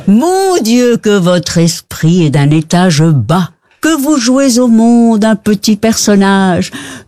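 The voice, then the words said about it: Put-on Belgian accent. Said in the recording (French): “avec l'accent belge”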